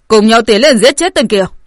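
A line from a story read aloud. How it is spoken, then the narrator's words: Impatient shout. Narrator (Vietnamese): Mọi người không nhịn được, có người quát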